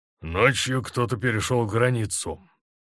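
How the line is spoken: Commander grumbling. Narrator (Russian): пробурчал комбат

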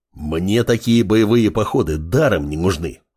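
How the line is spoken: Wolf's growl. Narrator (Russian): рыкнул волк

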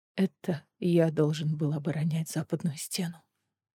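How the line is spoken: Trembling voice. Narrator (Russian): дрожащим голосом произнес Эдион

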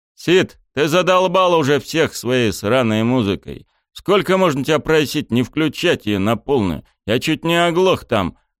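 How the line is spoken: Irritated yelling. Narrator (Russian): Раздраженно заорал на него огромный

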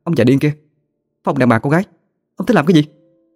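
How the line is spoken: Increasingly harsh. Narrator (Vietnamese): Tiếng cô Thân càng gay gắt hơn

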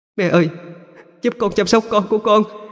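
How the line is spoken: Crying, screaming. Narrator (Vietnamese): Cô con dâu của bà cứ khóc lóc, liền hét lên

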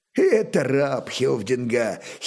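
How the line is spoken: Giggling. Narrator (Russian): хихикнул товарищ по драккару

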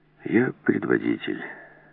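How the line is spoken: Calm. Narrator (Russian): продолжал Келс спокойно

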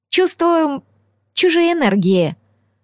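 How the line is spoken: Sighing. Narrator (Russian): вздохнула эльфийская ведьма

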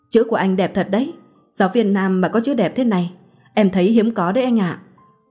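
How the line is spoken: Smiling. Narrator (Vietnamese): Hương mỉm cười mà ngẩng lên bảo tôi

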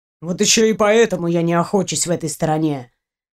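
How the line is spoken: Grumbling. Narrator (Russian): ворчал Андрей

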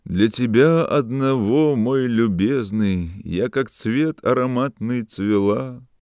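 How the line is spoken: Deep masculine singing. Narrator (Russian): она запела густым мужским голосом

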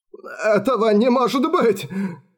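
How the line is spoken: Sobbing. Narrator (Russian): всхлипнул Альфред

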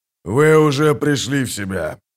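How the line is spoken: Deep booming bass. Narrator (Russian): прогудел густой бас

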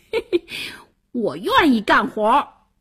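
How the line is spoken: Laughing loudly. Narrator (Chinese): 王小二大笑

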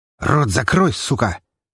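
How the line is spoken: Young man barking. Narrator (Russian): рявкнул стоящий надо мной парень

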